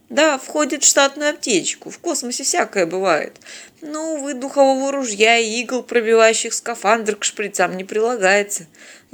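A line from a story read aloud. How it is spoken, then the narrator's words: Sighing. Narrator (Russian): вздохнул Вениамин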